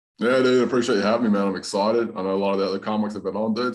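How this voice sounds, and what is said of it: Hybrid Southern US and Australian accent. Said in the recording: “I got a bit of an accent ... I got this hybrid Southern Australian accent ... you sound Australian”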